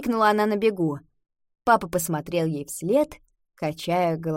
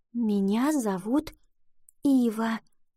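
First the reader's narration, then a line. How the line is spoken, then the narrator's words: Whisper. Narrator (Russian): прошептала она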